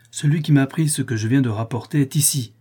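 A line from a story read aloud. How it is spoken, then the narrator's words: Cried out. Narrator (French): s'écria-t-il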